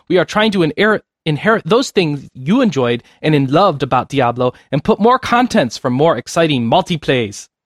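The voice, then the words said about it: Weak imitation of Korean accent. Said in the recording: “that's the best I can do. I don't know a Korean accent ... the only part I added was the accent ... And that was bad.”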